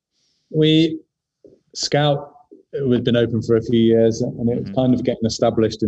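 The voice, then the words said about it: London accent. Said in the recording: “you've got a fantastic, you know, London accent”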